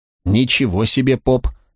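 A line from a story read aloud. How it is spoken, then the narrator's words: Husky from wine and song. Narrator (Russian): заметила красотка Пуньялес своим хрипловатым от вина и песен голосом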